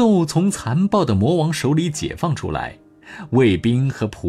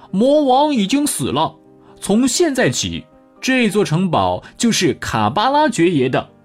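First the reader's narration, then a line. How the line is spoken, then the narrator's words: Loud announcement. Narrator (Chinese): 猫对城堡里的卫兵和仆人们大声的说道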